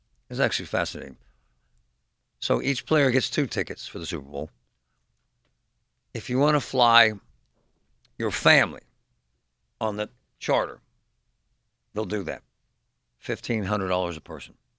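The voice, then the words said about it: Impaired voice, still recovering. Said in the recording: “I apologize for my voice, folks. It's a work in progress. It's getting better”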